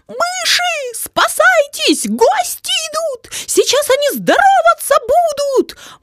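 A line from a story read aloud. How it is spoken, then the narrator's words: Terrified mice squeaking. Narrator (Russian): Мыши в ужасе запищали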